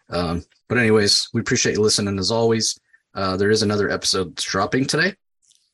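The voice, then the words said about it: Rough, sick-sounding voice. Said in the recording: “I apologize for my voice. Um, hopefully, I don't have the COVID.”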